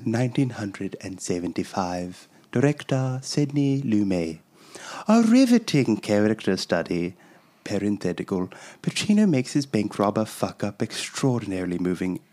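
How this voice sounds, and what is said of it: Old-sounding British accent. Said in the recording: “Very good accent ... Why is your British person so old?”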